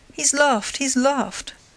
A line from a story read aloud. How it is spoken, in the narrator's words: cried Lupin, jumping for joy